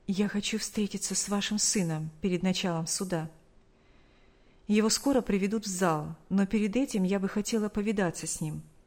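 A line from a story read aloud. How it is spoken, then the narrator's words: Soft whisper. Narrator (Russian): тихо шепнула ей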